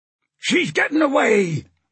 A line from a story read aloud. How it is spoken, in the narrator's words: bellowed